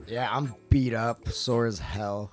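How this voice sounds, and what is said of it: Slightly tired voice. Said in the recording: “you could tell, like, my voice is like a little tired.”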